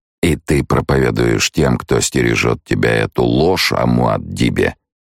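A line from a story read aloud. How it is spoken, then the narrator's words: Quiet question. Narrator (Russian): негромким голосом спросил Хейт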